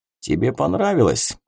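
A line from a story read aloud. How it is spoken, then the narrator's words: Slightly husky voice. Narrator (Russian): чуть хрипловатый голос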